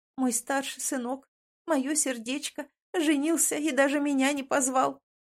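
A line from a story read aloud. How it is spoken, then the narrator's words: Bitter sobbing. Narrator (Russian): горько всхлипывает она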